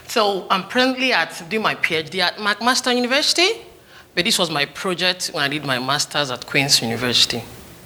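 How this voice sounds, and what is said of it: Slight foreign accent, fast speech. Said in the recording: “I have a little bit of an accent ... with my accent and how I talk so fast”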